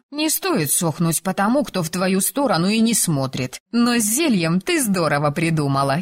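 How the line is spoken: Giggling. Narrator (Russian): хихикнула соседка

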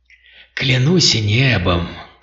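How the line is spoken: Whispered exclamation. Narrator (Russian): шепотом воскликнул Шоркан

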